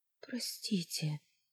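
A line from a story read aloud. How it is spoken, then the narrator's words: Frightened tearful whisper. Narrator (Russian): прошептала, испуганно сжимаясь, смигивая слезы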